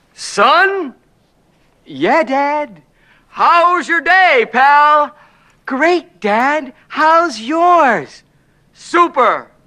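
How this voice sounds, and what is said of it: Acts out father and son voices. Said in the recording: “my impression of life at Big Bri's house”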